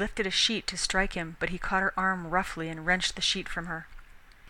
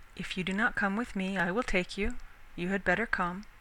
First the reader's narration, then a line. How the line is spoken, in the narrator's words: said Canute quietly